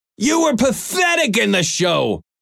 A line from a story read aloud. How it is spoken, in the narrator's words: Norm shouted angrily